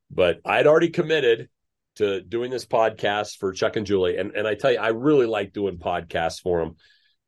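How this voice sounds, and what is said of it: Sick-sounding voice. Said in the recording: “And yes, I am sick. If you're used to hearing my voice, I actually probably have a better radio voice now than I normally do.”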